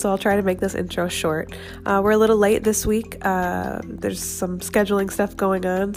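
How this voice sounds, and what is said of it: Slightly congested voice from a cold. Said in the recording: “I have a little bit of a cold”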